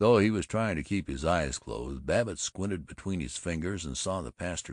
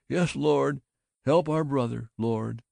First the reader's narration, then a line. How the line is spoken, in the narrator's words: Drew's imprecations with moans of